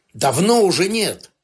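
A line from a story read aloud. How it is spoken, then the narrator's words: Barked. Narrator (Russian): Лайм не оценил его тона и рявкнул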